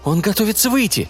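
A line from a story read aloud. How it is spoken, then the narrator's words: Hurried speech. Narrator (Russian): Литл Джон торопливо заговорил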